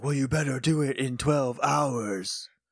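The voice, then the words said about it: Imitates a character's voice. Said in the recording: “You have a very good Mezogog impression.”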